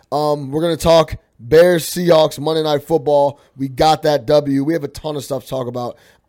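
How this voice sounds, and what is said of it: Slightly hoarse, strained voice. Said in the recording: “You can hear it in my voice. ... I was screaming a little bit.”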